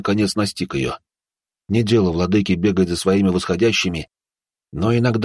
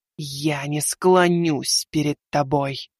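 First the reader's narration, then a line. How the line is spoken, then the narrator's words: Hiss. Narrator (Russian): прошипела она ему в лицо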